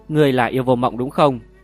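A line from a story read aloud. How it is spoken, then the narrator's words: Loud shout. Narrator (Vietnamese): Sa Ngộ Tĩnh hét lớn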